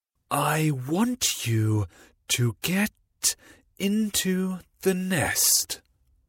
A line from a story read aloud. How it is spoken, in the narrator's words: the bird called as slowly as possible